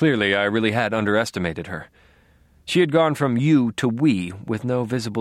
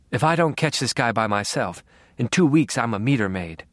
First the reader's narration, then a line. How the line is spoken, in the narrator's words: she said